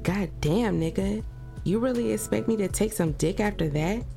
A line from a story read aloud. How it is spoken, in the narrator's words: She giggled as her head continued to spin